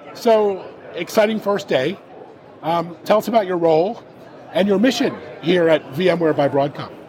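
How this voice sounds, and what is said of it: Very hoarse voice. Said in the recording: “with a very hoarse voice ... I'm trying to keep my voice”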